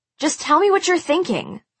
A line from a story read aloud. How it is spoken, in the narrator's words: I blurted